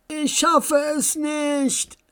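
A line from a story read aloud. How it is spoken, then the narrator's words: Exhausted scream. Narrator (German): schrie Max und spürte plötzlich, wie ihn die Kräfte verließen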